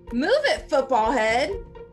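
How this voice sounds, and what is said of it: Impression of cartoon character Helga. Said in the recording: “Oh, that's a good impression. ... That is a good impression, actually.”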